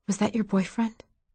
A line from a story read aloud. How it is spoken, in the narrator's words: Maisie whispered from the bottom bunk